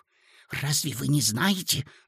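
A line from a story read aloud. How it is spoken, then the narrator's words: Whisper. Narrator (Russian): зашептала Лидочка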